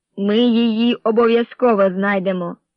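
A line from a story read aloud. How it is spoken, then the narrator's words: Stern reply. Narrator (Ukrainian): суворо відповів Неш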